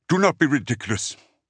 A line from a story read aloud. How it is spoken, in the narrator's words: Sistriel snapped